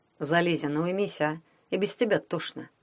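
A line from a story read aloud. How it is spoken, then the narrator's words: Quiet. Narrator (Russian): тихо сказал Валялкин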